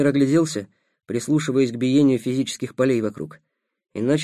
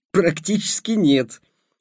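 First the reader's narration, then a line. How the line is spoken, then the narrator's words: Laughing. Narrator (Russian): рассмеялся Ростислав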